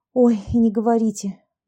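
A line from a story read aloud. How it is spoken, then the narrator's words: Young woman sighing. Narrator (Russian): вздохнула молодая женщина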